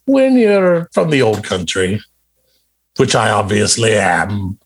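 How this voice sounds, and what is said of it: Exaggerated fake Scottish accent. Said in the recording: “this beautifully... culturated and cultivated and Scottish accent that sounds just like someone who's definitely from Scotland”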